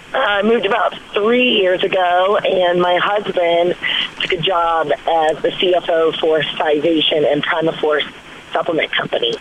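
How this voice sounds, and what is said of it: Slightly hoarse voice. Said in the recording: “I'm a little hoarse today from talking so much over the weekend”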